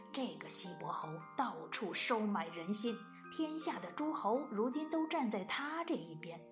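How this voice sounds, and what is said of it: Quiet, muttering voice. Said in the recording (Chinese): “小声的嘀咕”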